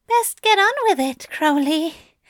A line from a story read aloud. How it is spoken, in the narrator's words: he sighed